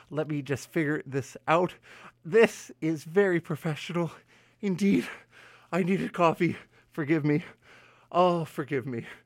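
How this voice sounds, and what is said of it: Out of breath, panting speech. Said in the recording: “I'm sorry, I'm out of breath here.”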